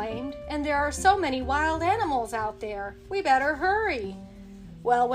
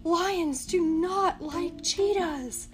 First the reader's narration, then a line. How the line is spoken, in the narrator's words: Martin whispered